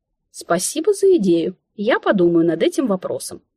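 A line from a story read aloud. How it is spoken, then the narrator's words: Spiteful hungry reply. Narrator (Russian): сугубо из проснувшейся от голода вредности ответила я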